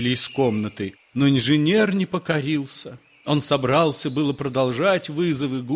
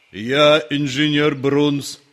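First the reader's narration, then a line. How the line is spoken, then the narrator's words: Unexpected deep bass. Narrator (Russian): сказал заклинатель гусика неожиданным басом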